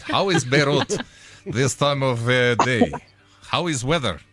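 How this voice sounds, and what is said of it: Put-on Beirut accent. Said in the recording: “try my Beirut accent”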